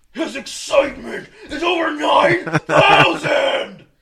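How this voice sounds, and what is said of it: Dragon Ball character impression. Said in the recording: “his Dragon Ball impersonations ... It's really good.”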